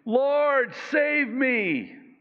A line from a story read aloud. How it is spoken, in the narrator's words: beginning to sink, he cried out, saying